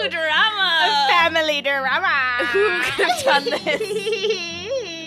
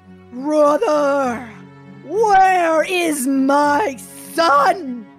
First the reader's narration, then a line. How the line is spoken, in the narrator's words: howls